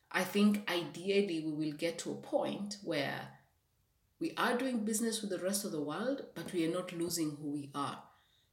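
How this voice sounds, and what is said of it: Kenyan-accented English. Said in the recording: “I am someone from Kenya ... I have a certain accent because you know I spoke I spoke Swahili. I spoke a bit of Kikuyu ... I grew up in Western Kenya where they speak Bukusu”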